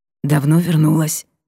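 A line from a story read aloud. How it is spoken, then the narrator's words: Hoarse whisper. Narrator (Russian): шепнул хрипловато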